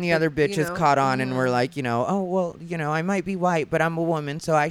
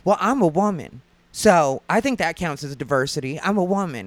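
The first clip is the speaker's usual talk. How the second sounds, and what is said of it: Imitated Southern accent. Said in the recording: “with her Southern accent, she was like”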